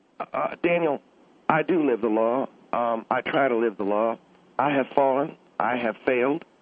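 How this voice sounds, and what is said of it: Slight accent. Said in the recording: “You have a little bit of an accent there, sir.”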